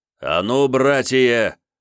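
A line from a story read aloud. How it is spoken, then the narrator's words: Shout. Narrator (Russian): закричал новгородский посадник Михаил Федорович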